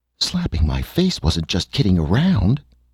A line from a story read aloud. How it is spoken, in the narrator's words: she cried